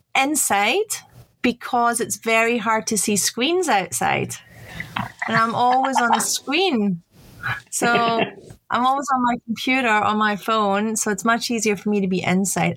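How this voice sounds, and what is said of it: Non-Australian foreign accent. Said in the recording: “with my accent, you can tell that I'm not born in Australia ... your accent doesn't tell me that you're Italian”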